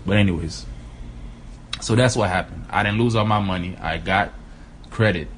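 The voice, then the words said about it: Slightly odd, swollen-mouth speech. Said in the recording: “I sound a little weird, ... I had my wisdom tooth taken out a couple days ago ... the swelling's still there”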